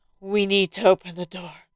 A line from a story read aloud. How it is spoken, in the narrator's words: Still out of breath from being choked by the cat, the priest manages to wheeze